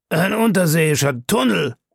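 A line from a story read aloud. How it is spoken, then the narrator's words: Exclaiming. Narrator (German): rief aus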